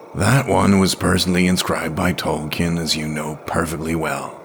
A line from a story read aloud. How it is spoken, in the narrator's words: grumbled a voice from the other side of the table